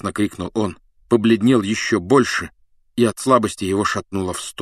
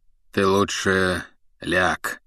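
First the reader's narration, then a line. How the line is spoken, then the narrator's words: Calm. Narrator (Russian): спокойно сказал он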